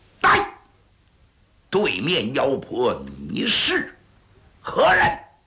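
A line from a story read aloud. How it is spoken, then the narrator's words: Angry stern shout. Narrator (Chinese): 小剑魔是十分的生气，厉声断喝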